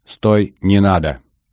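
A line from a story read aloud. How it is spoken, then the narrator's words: Loud command. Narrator (Russian): бобер громко скомандовал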